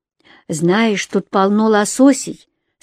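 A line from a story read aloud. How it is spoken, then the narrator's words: Plain. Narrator (Russian): сказала Ронни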